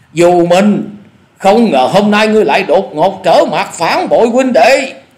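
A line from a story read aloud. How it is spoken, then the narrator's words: Loud furious shouting. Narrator (Vietnamese): giả điểu thần ma không dằn được lửa giận, nạt to tiếng nói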